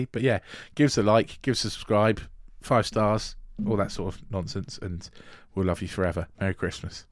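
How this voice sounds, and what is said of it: Strained, fading voice. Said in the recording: “I'm now losing my voice”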